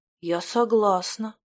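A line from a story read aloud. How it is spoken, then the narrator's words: Quiet. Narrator (Russian): тихо произнесла Слава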